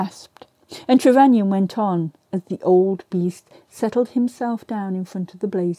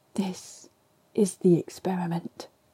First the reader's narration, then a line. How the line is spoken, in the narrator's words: he bent forward and whispered